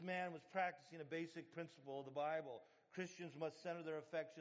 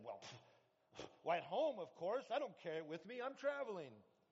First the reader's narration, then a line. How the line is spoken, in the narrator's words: indignantly, the visitor said